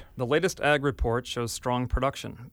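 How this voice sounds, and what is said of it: Wisconsin accent. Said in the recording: “it's the Wisconsin accent”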